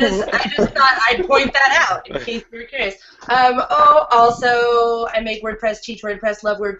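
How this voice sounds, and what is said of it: Usual voice. Nothing is said of it.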